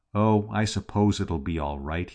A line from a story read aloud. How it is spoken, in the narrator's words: said in a toneless voice